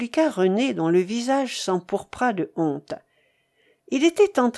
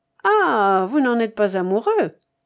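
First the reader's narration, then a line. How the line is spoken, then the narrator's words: Nasty sneering laugh. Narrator (French): reprit en ricanant d'un rire détestable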